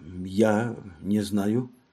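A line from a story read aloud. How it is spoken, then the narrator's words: Puzzled mutter. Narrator (Russian): Она озадаченно пробормотала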